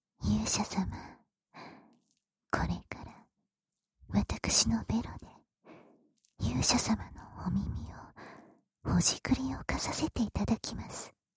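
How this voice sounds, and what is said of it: Whispering. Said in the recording (Japanese): “ささやき”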